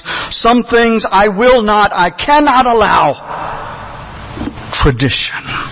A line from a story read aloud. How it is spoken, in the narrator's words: He loudly proclaims